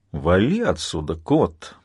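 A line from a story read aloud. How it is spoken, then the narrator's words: Grumbling. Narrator (Russian): проворчал Джон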